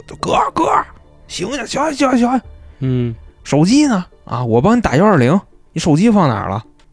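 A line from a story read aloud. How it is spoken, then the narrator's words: Shouting. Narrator (Chinese): 这哥们儿就跟那喊说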